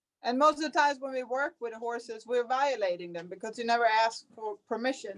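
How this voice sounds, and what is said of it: Swedish accent. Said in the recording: “Can definitely hear your cool accent”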